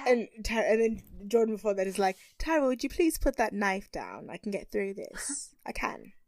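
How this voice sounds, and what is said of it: Put-on British accent. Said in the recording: “Just doing a British accent right now.”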